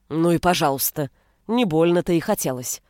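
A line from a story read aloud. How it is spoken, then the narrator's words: Sulky, defiant mutter. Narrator (Russian): буркнула я, всем своим видом излучая крайнюю степень несогласия с произволом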